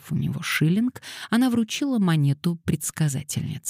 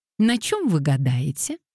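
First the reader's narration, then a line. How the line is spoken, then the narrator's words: Cheerful question. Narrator (Russian): весело спросила Дейзи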